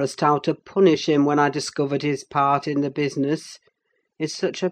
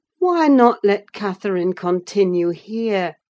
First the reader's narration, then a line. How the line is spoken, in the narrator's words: I pleaded